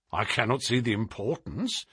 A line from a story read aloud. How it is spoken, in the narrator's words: said Lestrade